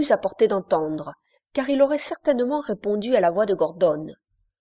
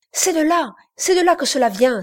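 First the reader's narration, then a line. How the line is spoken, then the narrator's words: Crying out. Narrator (French): s'écria Brian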